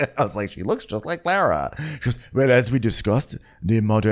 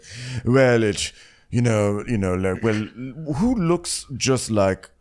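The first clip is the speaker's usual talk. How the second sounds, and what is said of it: Put-on accent imitating an actress. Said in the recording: “I was like reading my notes in her accent.”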